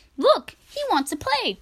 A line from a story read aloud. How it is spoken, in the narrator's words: cried Emiko